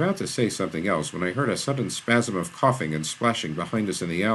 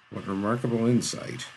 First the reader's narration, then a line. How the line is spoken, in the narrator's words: Shaw muttered